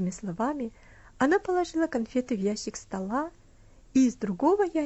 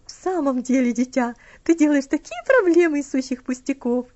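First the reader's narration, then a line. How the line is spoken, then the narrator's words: Laughing lady. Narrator (Russian): рассмеялась леди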